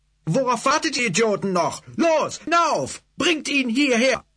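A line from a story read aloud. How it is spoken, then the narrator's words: Bellowed. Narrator (German): den Gesalb brüllen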